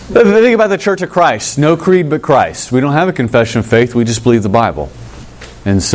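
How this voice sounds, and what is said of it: Usual voice. Nothing is said of it.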